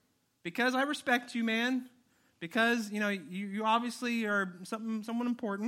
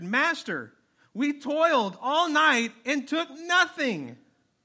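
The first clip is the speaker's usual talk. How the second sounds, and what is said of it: Yelling. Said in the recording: “Exclamation point, that's why I'm yelling.”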